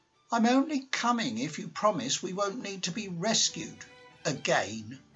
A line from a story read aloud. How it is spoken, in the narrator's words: said in a haughty tone